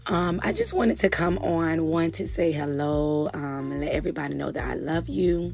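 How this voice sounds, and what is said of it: Cracky voice from a cold. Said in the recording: “my voice sounds a little cracky. I'm still getting over this cold”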